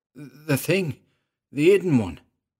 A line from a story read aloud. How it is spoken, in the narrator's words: he stammered